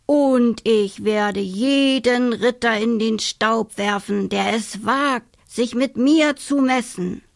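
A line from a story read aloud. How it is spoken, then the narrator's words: Announced in disguised voice. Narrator (German): verkündete sie mit verstellter Stimme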